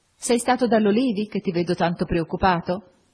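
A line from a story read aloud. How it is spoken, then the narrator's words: Laughing question. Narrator (Italian): Augusta, ridendo, mi domandò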